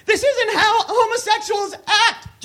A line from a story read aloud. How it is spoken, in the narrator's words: Johnny Depp cried, his voice cracking